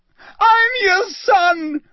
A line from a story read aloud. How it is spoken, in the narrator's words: He screamed up at Crouch